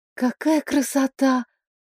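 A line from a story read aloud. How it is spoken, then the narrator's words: Awed whisper. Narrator (Russian): прошептала я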